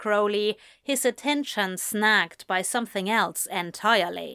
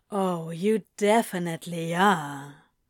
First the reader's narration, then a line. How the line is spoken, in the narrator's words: Crowley purrs